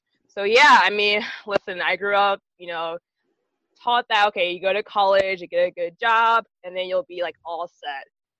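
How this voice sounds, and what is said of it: Valley girl speech. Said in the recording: “I talk like a Valley girl”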